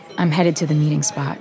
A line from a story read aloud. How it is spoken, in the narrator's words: whisper in her ear